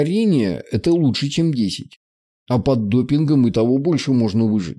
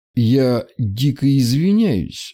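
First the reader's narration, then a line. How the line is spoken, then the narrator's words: Slow speech. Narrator (Russian): медленно произнес я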